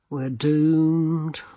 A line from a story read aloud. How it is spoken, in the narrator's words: murmured Rincewind